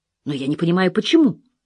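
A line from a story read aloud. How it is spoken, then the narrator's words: Exclamation. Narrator (Russian): воскликнул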